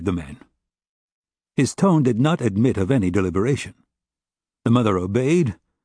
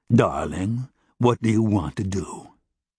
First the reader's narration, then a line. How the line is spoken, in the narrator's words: The mother asked in a slow, thick voice, in words that seemed to come out congealed